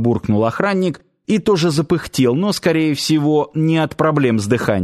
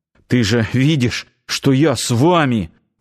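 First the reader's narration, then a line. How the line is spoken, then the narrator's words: Strained, forced words. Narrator (Russian): с трудом выдавил из себя Нанос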